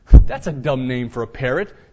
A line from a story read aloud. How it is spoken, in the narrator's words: sneered the burglar